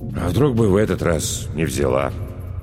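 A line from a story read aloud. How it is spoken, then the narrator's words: Detached mumble. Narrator (Russian): отрешенно пробормотал Михаил Матвеевич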